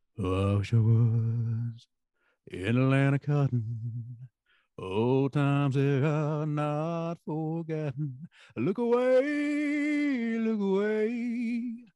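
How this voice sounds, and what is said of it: Imitates another person's singing voice. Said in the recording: “my Elvis impersonation”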